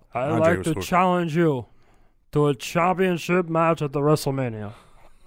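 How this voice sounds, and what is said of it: Poor Andre the Giant impression. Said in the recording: “That's the worst Andre impersonation I've ever heard.”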